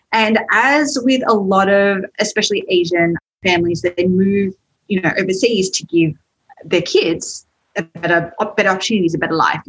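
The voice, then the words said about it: Australian accent. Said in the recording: “you can probably tell from my accent, I am from Australia, from Sydney”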